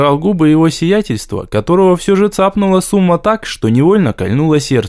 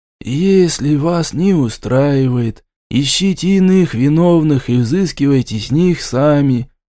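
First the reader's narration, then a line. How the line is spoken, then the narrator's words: Lazy reply. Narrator (Russian): лениво ответили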